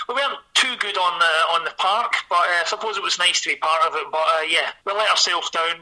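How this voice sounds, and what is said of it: Glaswegian Scottish accent. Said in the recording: “as you can hear from my accent, I am from Glasgow”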